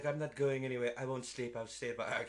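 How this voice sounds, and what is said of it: Put-on accent. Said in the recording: “I don't know why I'm doing that accent.”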